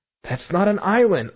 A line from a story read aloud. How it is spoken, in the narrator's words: I cried skeptically